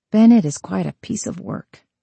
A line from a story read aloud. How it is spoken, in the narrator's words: Evelyn mumbled